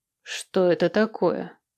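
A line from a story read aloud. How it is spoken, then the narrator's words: Metallic questioning tone. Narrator (Russian): металлическим тоном спросила она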